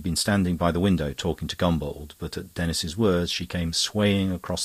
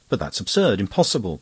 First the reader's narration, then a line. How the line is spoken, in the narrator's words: cried Anne